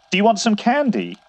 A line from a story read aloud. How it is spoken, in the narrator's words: I asked, my voice starting to waver